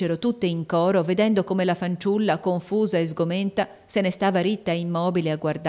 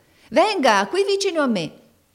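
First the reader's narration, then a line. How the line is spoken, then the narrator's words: Woman shouting. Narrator (Italian): gridava una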